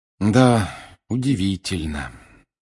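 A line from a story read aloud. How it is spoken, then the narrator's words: Heavy sigh. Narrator (Russian): тяжело вздохнул Гарри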